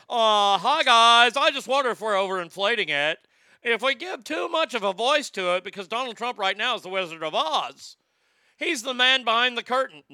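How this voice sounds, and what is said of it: Impression of Don Lemon. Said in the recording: “let me do my Don Lemon voice.”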